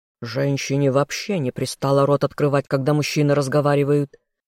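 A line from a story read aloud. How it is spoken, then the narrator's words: Growl. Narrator (Russian): рыкнул лорд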